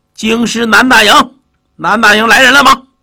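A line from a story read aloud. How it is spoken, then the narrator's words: Shouted. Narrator (Chinese): 一位府仓的小头目喊了一声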